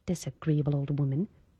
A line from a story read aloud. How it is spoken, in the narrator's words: Under her breath, Esther muttered